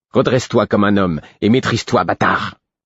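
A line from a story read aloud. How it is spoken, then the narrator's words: Snarling, aggressive. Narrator (French): me dit Galen d'un ton hargneux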